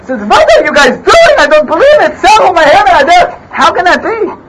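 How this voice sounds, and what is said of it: Put-on Yiddish accent. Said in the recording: “speaks with a Yiddish accent.”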